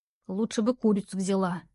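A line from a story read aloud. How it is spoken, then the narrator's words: Young woman grumbling. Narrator (Russian): бурчала девушка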